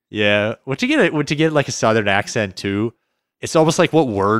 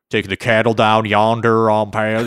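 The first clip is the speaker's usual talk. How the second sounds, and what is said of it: Put-on Southern Texan accent. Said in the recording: “say something southern to like get into a voice ... that's more like Texan, maybe”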